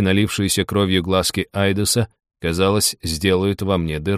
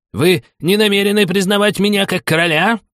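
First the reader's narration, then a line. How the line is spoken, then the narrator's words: Hysterical shriek. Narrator (Russian): истерично взвизгнул он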